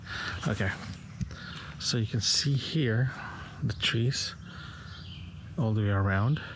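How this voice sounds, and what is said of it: Whispering. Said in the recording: “that's why I'm still whispering.”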